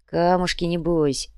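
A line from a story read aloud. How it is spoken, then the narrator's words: Dreamy sighing fence. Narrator (Russian): мечтательно вздохнул забор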